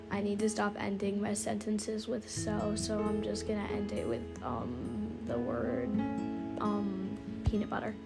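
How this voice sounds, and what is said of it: Scratchy, strained voice. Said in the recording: “You can probably hear right now, this is proof that my voice is dying because I record too much or I'm screaming at my friends over the phone ... my voice is less scratchy”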